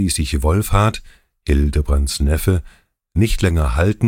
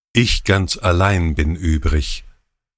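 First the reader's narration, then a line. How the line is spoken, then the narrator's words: Plain. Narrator (German): sagte Hildebrand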